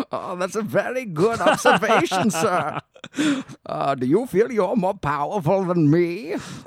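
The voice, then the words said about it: Bane-style masked villain voice. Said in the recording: “my best Bane impersonation ... It was pretty good.”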